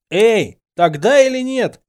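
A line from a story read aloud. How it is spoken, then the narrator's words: Teasing shout. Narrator (Russian): крикнул я ей в спину, чтобы поддеть ее еще сильнее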